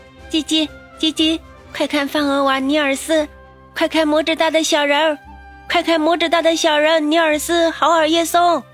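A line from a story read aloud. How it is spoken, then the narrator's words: Chirping sparrow. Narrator (Chinese): 一只麻雀 叫了起来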